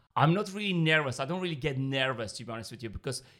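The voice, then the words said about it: Non-native English accent. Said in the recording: “I have an accent, I have, you know, a language barrier”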